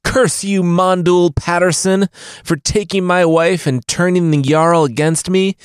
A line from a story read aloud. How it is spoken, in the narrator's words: Bjorn yelled